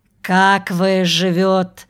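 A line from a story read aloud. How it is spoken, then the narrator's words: Elderly man, smiling, Russian. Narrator (Russian): Пожилой с улыбкой сказал уже по-русски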